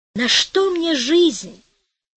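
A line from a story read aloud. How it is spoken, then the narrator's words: Moaning. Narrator (Russian): простонал Маттео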